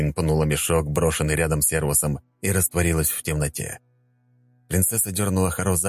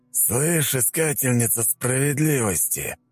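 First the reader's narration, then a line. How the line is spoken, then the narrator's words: Drawling. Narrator (Russian): протянул Спайк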